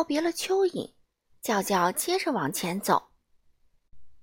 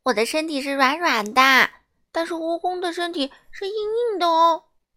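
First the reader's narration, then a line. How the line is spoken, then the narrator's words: Earthworm telling. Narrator (Chinese): 蚯蚓回头告诉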